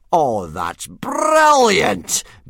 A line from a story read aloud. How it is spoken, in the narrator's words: bellowed Gobber